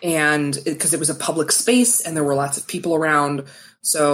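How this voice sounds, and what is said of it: Usual voice. Nothing is said of it.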